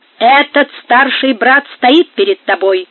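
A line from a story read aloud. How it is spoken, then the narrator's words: Haughty, offended. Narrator (Russian): сказал оскорбленный прелат надменным тоном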